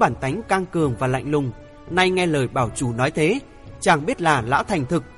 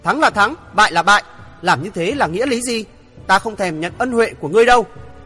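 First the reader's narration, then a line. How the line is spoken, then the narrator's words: Loud scream. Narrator (Vietnamese): chàng thét lớn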